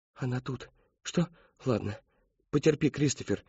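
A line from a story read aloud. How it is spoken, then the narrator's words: Mother whispering. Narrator (Russian): шептала ему мать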